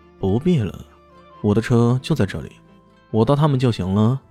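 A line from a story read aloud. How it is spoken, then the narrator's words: Calm, indifferent. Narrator (Chinese): 李炫淡淡的说道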